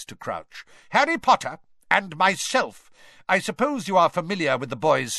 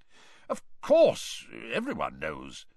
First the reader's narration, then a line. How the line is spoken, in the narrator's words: muttered Mr